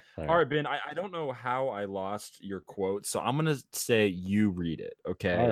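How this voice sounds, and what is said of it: Usual voice. Nothing is said of it.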